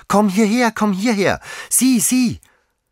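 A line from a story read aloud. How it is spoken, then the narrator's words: Frantic child shouting. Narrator (German): rief das Kind wie außer sich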